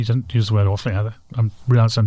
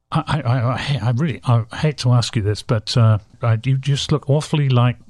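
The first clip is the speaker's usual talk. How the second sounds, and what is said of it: Poor English-accented busboy impression. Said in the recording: “I'm doing this in a totally English accent. ... This is a very terrible impression you're doing of the Sarasotan busboy”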